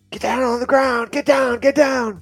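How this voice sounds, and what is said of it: Yelling commands. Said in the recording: “we're yelling,”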